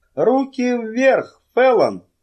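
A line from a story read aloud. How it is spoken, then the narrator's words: Shout. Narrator (Russian): крикнул кто-то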